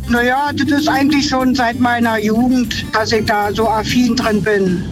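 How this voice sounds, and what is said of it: Berlin dialect. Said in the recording (German): “ihr Dialekt ja eher nach Bundeshauptstadt klingt ... Also tatsächlich eine Berlinerin.”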